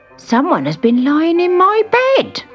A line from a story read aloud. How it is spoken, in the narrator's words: he cried